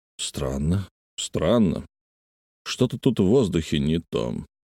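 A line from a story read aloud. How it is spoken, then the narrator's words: Muttering. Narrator (Russian): пробормотал он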